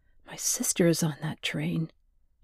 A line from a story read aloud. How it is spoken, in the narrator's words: Joanna murmured